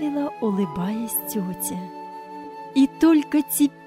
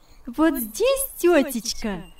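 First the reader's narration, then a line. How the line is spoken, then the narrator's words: Cheerful exclamation. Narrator (Russian): вскричала весело Яна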